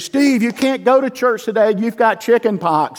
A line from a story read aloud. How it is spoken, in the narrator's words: my mother yelling down the street